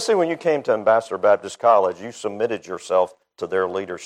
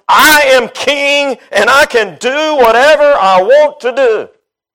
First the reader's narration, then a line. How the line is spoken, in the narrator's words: The giant of flesh is always yelling out